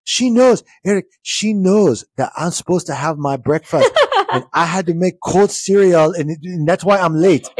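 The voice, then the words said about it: Put-on accent, not done well. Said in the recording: “apparently I can't do the accent that well”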